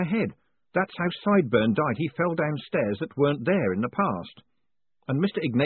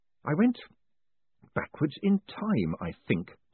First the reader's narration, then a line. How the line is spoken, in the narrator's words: Moist mumbled